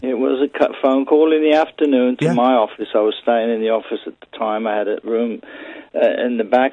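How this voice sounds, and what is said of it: Liverpool accent. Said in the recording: “you will have a Liverpool accent like me.”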